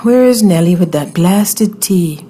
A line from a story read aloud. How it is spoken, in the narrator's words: I sighed